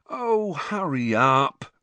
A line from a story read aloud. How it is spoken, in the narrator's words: Ron moaned